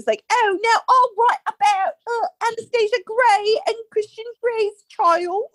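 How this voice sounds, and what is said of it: Puts on an accent. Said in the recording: “Why did we get an accent already?”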